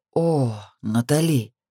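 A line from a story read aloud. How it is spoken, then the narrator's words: Heavy sigh. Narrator (Russian): Тяжко вздохнул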